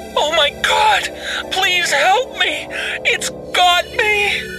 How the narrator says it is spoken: she bawled

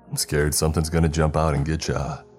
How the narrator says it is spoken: he asked in a joking tone

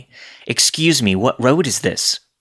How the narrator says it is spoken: asked again, loudly

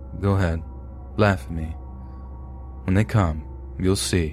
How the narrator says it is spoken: The confidence in his voice became faint and the man said

